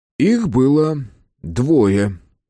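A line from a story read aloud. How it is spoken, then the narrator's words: Strained, forced out. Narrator (Russian): выдавил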